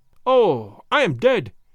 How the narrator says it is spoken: he cried, several times over

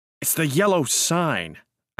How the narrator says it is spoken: said angrily

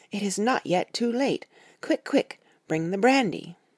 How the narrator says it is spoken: he cried out to me

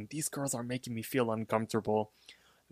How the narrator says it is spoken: whispers, saying

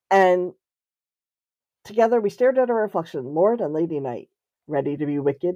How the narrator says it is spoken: he purred

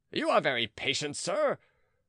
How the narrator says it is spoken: cried Philippe, who was boiling with rage

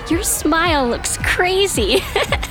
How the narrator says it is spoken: Latoya laughed

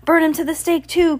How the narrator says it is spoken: cried Miss Morrow

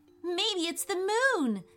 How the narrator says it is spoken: said Ethan excitedly

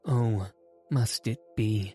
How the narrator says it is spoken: sighed the grandmother

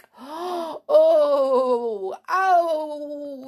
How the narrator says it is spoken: yelled Tom, with fright

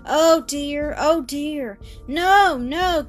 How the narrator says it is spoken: cried the child, struggling

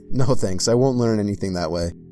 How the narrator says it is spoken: laughed and said

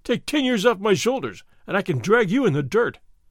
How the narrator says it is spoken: Fray Felipe cried

